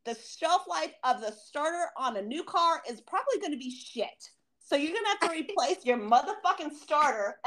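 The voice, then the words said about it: Yelling, worked up. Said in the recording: “I'm sorry if I'm yelling. I'm so fucking worked up.”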